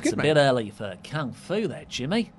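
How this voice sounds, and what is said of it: Attempted Australian accent. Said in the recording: “can you do an Australian accent ... Well, you tried.”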